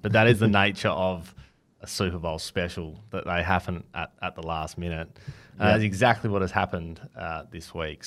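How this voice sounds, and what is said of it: Husky voice. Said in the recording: “my voice is a little bit weird today. A bit husky.”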